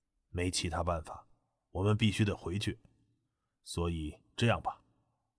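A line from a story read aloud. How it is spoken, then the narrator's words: Hushed voice. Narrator (Chinese): 滕永凡……压低声音道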